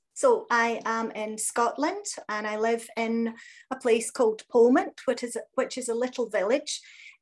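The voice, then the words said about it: Scottish accent. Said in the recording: “I absolutely love your accent.”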